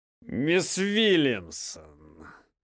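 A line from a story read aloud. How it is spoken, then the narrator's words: Loud, clearly enunciated. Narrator (Russian): Громко констатировал, четко выговорив каждое слово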